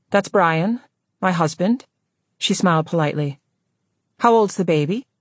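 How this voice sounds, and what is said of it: Woman's voice with slight brogue. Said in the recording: “Lena heard traces of a brogue.”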